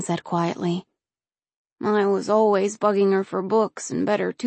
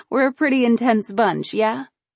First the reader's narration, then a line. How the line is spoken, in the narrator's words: Austin laughed